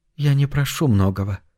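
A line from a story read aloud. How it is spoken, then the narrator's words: Soft. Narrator (Russian): мягко продолжила Шай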